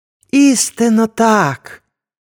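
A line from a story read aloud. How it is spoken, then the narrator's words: Joyful call. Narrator (Ukrainian): радісно гукнув Мола-Несарт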